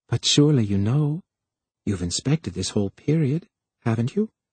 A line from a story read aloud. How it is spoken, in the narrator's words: weakly, he explained